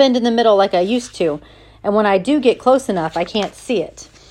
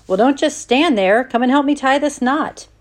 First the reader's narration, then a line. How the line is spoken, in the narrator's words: he exclaims